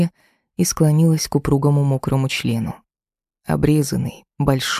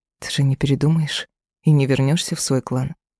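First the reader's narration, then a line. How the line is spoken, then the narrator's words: Sighing. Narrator (Russian): Шамиль вздохнул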